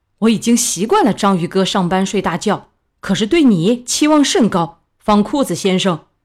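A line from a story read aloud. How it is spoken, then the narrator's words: Angry shout. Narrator (Chinese): 蟹老板怒喝一声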